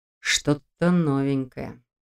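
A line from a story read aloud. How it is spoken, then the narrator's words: Quiet comment. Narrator (Russian): тихо прокомментировал Долгов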